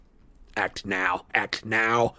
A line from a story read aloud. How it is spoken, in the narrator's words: whispered Griphook in Harry's ear